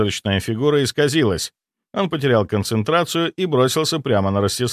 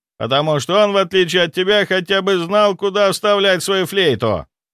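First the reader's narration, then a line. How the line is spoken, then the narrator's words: Furious roaring count. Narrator (Russian): Граф взревел от ярости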